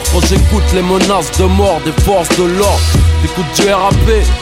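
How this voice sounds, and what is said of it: Aggressive French banlieue accent, forced intonation. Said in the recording (French): “L'intonation est forcée, ça donne l'effet d'un crachat. Son accent est est volontairement agressif et, et banlieusard.”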